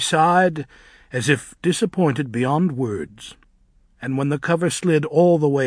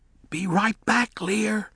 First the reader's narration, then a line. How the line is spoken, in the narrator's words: he hissed